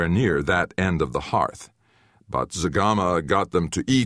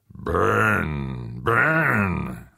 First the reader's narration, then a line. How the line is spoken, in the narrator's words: Zagama growled